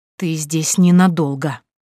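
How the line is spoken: Woman hissing. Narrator (Russian): зашипела женщина

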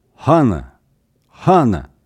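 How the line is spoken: Angry spat-out shouting. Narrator (Russian): как бы выхаркивая, зло подзадоривал, выкрикивал Мылгун

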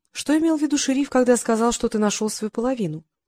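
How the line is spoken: Plain. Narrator (Russian): спросила она

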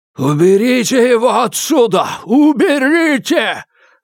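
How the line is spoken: Screaming. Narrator (Russian): завопил он

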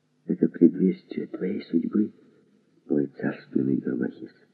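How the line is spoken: Joyful whisper in ear. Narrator (Russian): Она была вне себя от радости, хотя на губах ее сияла улыбка, и с этой улыбкой шепнула мне на ухо

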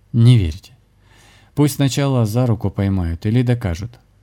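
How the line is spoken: Laughing. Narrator (Russian): засмеялся шаман

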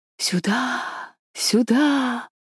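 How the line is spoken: Whispering pines. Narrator (Russian): постоянно шептали сосны

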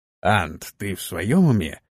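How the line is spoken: Mouthed through teeth. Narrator (Russian): одними губами процедил он

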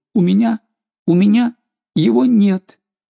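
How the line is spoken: Child sobbing, strained. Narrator (Russian): Горестно всхлипывая, ребенок с усилием ответил

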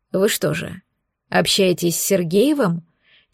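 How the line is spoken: Very quiet, secretive. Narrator (Russian): Тихо-тихо спросила оборотница, явно не желая, чтобы их услышал кто-то еще

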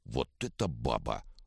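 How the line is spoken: Low mutter. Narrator (Russian): в полголоса пробормотал Вожжов

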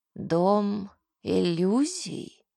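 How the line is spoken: Creaky male voice. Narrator (Russian): отозвался скрипучим голосом мужчина

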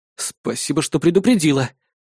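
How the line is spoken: Exhaled. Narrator (Russian): выдохнул я

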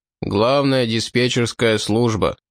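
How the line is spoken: Deep bass. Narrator (Russian): густым басом вымолвил Сол

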